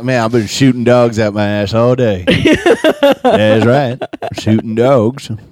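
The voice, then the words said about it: Put-on Southern redneck accent, Larry the Cable Guy. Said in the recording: “that sounds like a redneck's way of like talking ... my Southern accent is based on a guy who's not even Southern ... Larry the Cable Guy”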